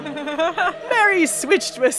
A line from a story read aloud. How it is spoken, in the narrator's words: he cried